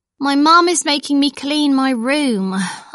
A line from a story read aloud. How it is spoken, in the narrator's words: I sighed